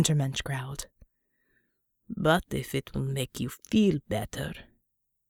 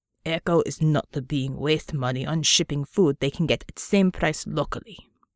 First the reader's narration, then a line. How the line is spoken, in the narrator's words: Georgie growled